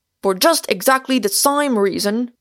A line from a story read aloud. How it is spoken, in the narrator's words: cried the excited Moses